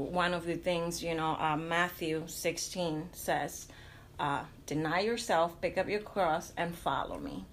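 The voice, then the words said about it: Hispanic accent in English. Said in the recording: “Hispanics, as you can tell by my accent”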